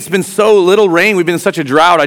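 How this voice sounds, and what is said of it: Sarcastic delivery. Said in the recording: “So that was sarcasm,”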